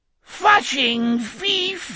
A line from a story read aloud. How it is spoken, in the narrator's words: it gibbered in its whining, droning insect's voice